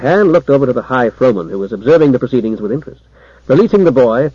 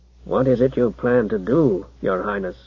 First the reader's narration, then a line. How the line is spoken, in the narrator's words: he muttered in an undertone